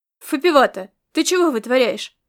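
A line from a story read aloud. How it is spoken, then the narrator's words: Male voice barking. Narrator (Russian): рявкнул чей-то мужской голос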